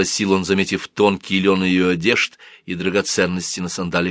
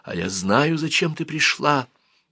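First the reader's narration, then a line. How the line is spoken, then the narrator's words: Whispered. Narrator (Russian): зашептала она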